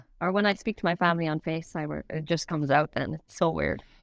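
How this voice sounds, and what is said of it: Irish accent, somewhat softened. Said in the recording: “she's Irish ... It's not gone. ... I'm sure it's less when you go home.”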